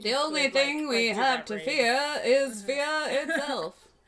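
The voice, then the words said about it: Roosevelt impression. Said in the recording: “my Roosevelt impression”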